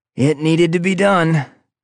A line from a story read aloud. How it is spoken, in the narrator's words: I said, grunting as I pulled myself up